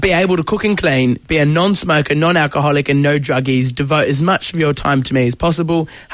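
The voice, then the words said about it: Put-on English accent. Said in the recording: “Oh, sorry, I've lost the English accent.”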